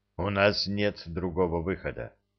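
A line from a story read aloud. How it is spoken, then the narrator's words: Admiral's sad wry laugh. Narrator (Russian): грустно усмехнулся адмирал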